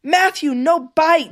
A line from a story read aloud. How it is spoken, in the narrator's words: She yelled